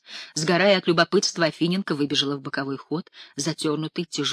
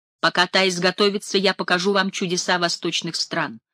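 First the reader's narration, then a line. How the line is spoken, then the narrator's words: Loud announcement. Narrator (Russian): громко объявил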